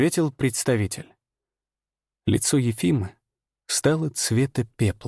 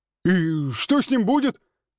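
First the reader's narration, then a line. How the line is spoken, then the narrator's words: Shout. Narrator (Russian): крикнул Барут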